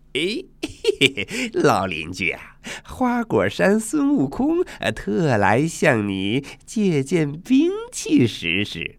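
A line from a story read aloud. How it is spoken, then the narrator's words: Cheerful, grinning. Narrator (Chinese): 他笑嘻嘻地说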